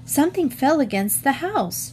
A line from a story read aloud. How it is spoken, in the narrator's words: Jean exclaimed